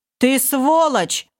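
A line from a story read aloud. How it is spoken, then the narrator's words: Commander yelling. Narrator (Russian): заорал командор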